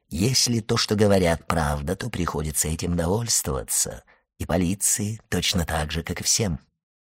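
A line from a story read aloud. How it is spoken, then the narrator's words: Soft smiling objection. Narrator (Russian): возразил мягко улыбаясь аббат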